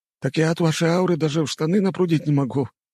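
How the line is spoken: Wheezy, very thin voice. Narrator (Russian): просипел еще более тонким голоском тот

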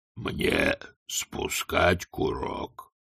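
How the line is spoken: Grumbling right into ear. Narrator (Russian): проворчал Детрит прямо в ухо интенданту

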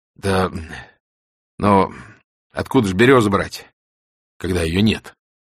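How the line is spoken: Sighing voices. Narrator (Russian): Вздохнули

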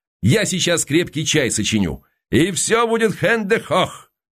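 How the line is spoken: Shouting from another room. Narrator (Russian): Константин крикнул из кухни

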